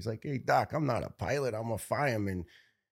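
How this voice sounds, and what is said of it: Tough Brooklyn accent. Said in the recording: “tough Brooklyn accent”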